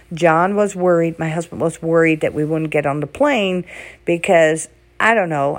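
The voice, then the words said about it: Raspy, hoarse voice. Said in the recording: “my throat is very raspy ... I have this cough, like this mucus”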